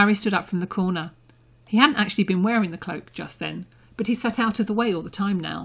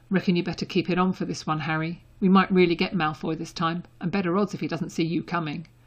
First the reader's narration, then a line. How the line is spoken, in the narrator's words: Ron muttered